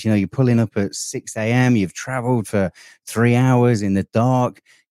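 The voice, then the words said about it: English accent. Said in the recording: “they heard my accent, asked me where I was from ... somebody that lives in England”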